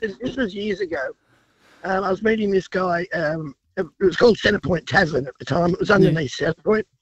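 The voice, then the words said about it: Congested, cold-affected voice. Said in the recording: “sorry about the voice. I've got a cold.”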